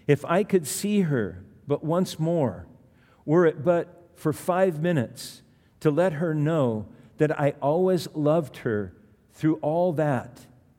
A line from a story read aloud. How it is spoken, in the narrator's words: he cried again and again